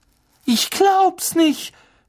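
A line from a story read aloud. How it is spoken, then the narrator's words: Screaming. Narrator (German): schrie Hermine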